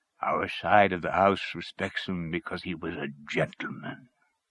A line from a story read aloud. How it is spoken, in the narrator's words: he said in a deep voice